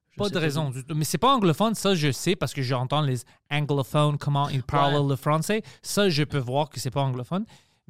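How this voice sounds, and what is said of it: Strong, hard-to-place mixed accent. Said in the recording (French): “T'as comme un gros accent quand même qui t'appartient. Là. Quand même, un accent, on pourrait pas dire, là, mettons, d'où c'est que ça vient. ... C'est vraiment unique. C'est comme une mélange de plein de choses. ... Mon accent est complètement fucké.”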